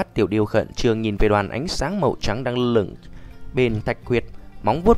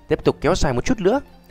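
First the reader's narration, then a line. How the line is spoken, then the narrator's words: Panicked shout. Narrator (Vietnamese): Lâm Động trong lòng hốt hoảng, quát lên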